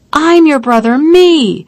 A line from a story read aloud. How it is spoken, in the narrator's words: cursed, cried